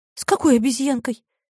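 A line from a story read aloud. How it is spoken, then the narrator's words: Frightened question. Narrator (Russian): испуганно спросила Мариша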